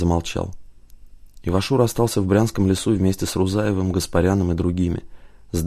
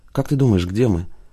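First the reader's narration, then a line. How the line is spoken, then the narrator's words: Even, level question. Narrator (Russian): Тем же ровным голосом спросила Тая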